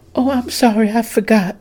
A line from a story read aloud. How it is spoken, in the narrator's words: Susan gasped